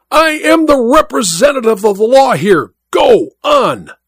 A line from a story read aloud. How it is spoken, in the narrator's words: The judge cried out at him in a terrible voice